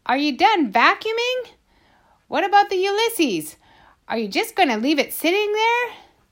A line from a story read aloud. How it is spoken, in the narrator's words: Tickham called out